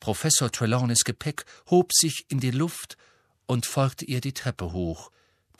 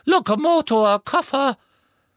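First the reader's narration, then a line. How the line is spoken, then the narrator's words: Squeaked. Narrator (German): Er quiekte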